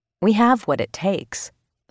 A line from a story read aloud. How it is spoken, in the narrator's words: said Alan Rosenfield